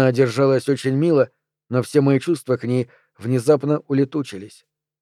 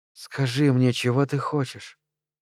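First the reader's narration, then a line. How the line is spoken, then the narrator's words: Shy whisper. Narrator (Russian): шепнула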